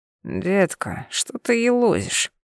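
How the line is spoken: Male mumbling. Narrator (Russian): Его бормотание

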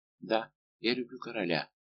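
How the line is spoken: Soft whisper. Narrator (Russian): тихо прошептала Лавальер

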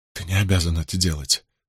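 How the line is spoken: Disbelieving whisper. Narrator (Russian): прошептала девушка, не веря своим глазам и ушам

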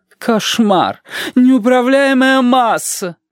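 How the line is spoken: Moaning. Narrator (Russian): простонала Маргарита Митрофановна

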